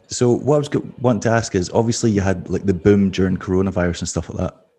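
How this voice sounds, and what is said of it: Very calm, soft speaking voice. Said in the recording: “speaking very calmly, like kind of channeling this calm voice ... sexy voice”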